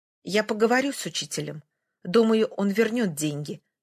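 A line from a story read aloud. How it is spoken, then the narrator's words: Plain. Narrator (Russian): сказала китаянка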